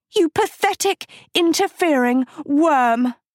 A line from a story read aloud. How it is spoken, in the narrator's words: she screamed